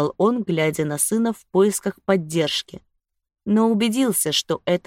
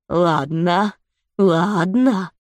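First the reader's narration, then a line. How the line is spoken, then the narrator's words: Hiss. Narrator (Russian): прошипел Лука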